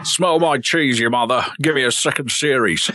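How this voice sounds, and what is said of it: Good Alan Partridge impression. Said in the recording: “He just slightly went into Alan Partridge there. ... That's a very good impression.”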